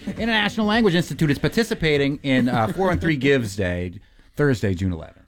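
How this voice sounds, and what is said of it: Strong Boston accent. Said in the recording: “my Boston accent is going crazy right now”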